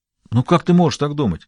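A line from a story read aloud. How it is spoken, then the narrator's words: Uncertain voice. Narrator (Russian): Но голос его звучал неуверенно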